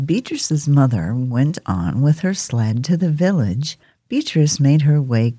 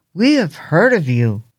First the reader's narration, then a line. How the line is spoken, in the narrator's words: cried the taller of the two boys